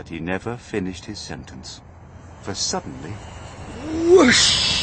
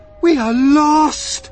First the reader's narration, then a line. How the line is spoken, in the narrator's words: cried the ladybird